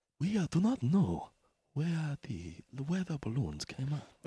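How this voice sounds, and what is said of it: Impression of Viceroy Gunray voice. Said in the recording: “you literally sound like Viceroy Gunray from Star Wars Episode 1 ... That's Viceroy Gunray.”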